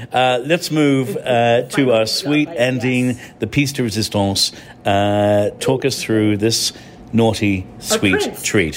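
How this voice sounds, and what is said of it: English accent. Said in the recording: “I'm an Irishman with an English accent”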